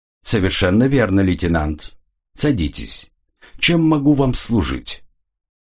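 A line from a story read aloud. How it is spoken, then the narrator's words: Calm, indifferent. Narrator (Russian): Его голос звучал спокойно и равнодушно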